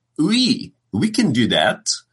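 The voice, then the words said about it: Attempted French accent. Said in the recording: “That was supposed to be a French accent. My apologies to the entire nation of France.”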